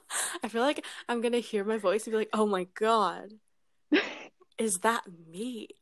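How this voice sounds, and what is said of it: British accent. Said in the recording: “I'm British. And if I'm not around a Canadian, my British accent comes out ... It is my accent. I'm not randomly turning British.”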